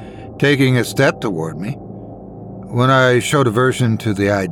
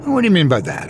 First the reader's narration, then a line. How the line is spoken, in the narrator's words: I snapped back